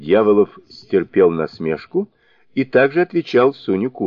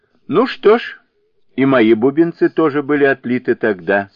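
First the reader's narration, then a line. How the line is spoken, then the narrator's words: Laughing. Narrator (Russian): смеясь сказал Сунь-укун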